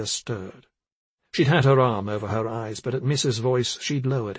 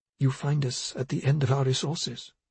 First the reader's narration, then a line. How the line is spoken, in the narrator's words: she said to her in a murmur